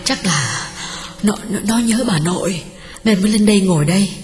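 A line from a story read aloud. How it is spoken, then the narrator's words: Breathless, panting. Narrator (Vietnamese): Hường thở hổn hển bảo chồng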